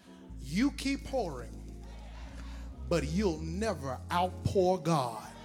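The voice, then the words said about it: Whispered after loud preaching. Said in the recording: “Can I whisper something to you? I know I got a little loud. ... Let me whisper this.”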